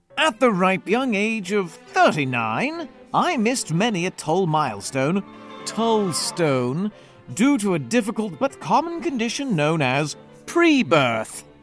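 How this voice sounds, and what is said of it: Silly put-on British accent. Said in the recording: “Shall I do a silly British accent”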